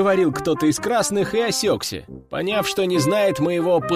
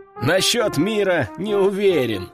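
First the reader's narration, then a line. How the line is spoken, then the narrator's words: Short chuckle. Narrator (Russian): хохотнул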